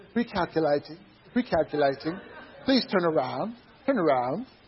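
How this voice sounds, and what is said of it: Put-on English accent. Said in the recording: “you have a nice English accent”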